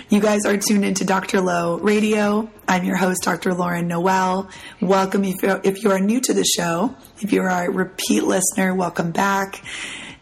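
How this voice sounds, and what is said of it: Raspy, husky voice. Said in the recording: “my voice is a little raspy. ... I call this my sexy Demi Moore voice ... I just sound, a little sexy.”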